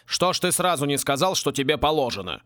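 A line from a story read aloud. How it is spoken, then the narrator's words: Elder grumbling. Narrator (Russian): проворчал старший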